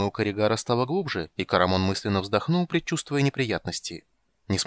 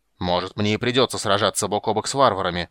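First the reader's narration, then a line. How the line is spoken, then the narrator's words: Growl. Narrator (Russian): прорычал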